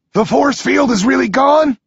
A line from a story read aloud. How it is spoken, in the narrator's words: shouts